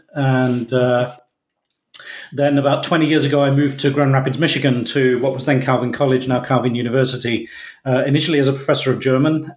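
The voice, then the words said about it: British accent. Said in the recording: “in Britain, if you can't tell from the accent.”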